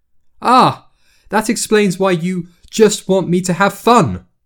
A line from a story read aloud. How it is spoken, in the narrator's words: she snapped